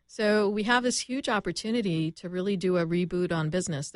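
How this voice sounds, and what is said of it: Canadian accent. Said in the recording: “There's my Canadian accent coming out.”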